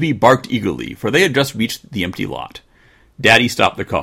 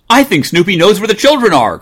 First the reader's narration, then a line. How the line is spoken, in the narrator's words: cried Mother